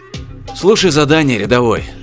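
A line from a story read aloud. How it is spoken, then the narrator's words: Sigh. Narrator (Russian): вздохнул Чен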